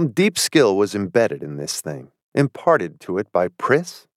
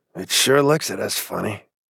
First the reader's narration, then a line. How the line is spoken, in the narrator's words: Maury muttered